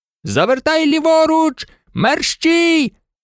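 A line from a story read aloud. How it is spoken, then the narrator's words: Shouted. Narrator (Ukrainian): крикнув один ковбой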